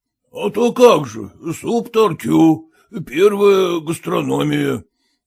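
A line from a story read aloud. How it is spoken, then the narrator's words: Hoarse bass voice. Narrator (Russian): откликнулся хриплым басом Колодкин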